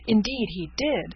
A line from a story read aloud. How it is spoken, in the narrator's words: cried Miss Peyton